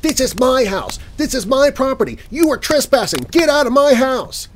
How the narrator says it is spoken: she's yelling at me

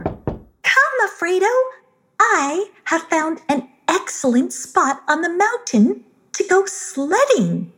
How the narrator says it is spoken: exclaimed

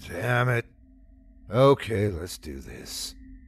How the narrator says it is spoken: I groaned and said

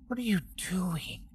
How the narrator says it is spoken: Samuel whispered

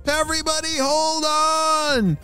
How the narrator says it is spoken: shouted Mr

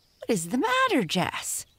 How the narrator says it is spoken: shrieked Amy

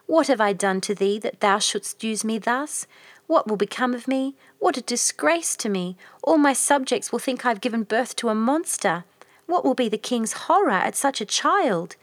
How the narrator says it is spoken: said the queen sadly

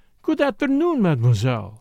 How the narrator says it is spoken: said cheerfully

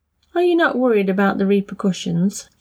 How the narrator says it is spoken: asked

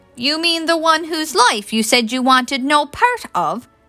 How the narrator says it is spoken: Mary snapped, willing herself not to cry

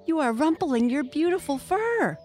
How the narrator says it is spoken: cried the young mink

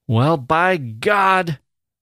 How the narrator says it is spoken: the youth shouted

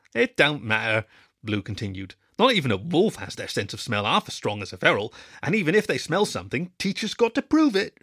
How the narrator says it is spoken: she barked, laughing

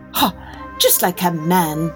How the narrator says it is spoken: scoffed

